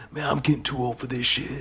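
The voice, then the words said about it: Attempted Danny Glover impression, sounds old. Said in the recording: “Let me try to do a Danny Glover here... I can't do a Danny Glover impression... That just sounds a little old. That's just old.”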